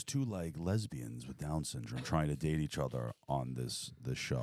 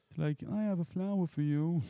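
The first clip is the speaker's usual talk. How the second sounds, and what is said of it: Mocking imitation of someone's voice. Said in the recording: “You can't do the voice. ... Don't do the voice.”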